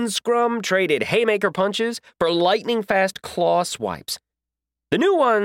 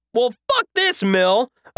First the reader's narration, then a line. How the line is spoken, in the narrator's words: I shouted